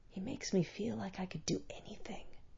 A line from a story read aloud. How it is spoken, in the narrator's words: Almost lost in that buzz, Faraj whispered